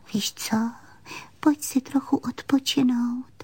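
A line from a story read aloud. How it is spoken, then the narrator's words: Leaning in, whispered. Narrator (Czech): Panenka se naklonila a pošeptala jí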